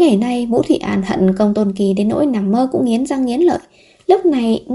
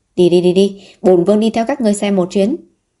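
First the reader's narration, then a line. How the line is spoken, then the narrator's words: Laughing loudly. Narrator (Vietnamese): Vũ Thụy An cười to nói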